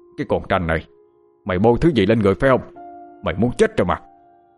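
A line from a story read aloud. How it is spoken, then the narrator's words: Fierce yelling. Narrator (Vietnamese): Ông khuôn mặt dữ tợn quát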